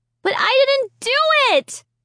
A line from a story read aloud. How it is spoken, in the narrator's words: I cried out loud